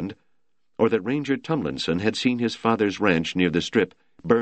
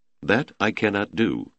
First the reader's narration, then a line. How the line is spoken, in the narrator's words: Taylor said flatly